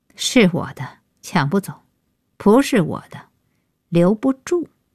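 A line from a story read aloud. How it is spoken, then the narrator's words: Cold interruption. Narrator (Chinese): 安叶开口，冷冷打断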